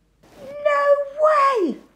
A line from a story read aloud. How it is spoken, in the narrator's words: Alan squeaked